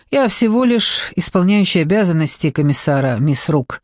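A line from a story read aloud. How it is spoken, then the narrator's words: Sigh. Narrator (Russian): вздохнул Марлоу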